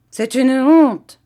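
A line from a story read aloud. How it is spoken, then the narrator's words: Exclaimed. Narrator (French): s'écria Vitalis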